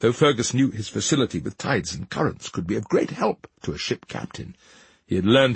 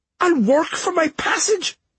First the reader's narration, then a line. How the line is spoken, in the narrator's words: Fergus pleaded